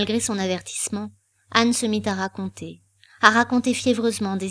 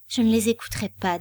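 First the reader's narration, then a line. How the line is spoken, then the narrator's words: Toneless voice. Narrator (French): dit Éléonore d'une voix blanche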